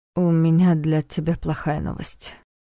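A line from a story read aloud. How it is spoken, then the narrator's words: Sigh. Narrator (Russian): вздохнул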